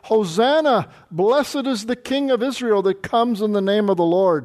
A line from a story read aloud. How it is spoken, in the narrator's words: cried